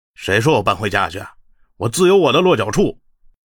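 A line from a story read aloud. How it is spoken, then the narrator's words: Cold. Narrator (Chinese): 玄海却冷冷道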